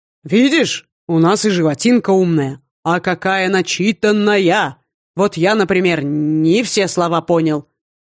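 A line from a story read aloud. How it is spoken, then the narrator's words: Booming joke. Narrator (Russian): Прогремела на весь дворик шутка математика Скандра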